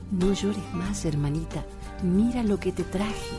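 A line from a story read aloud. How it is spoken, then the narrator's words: Whispering. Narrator (Spanish): dijo en un susurro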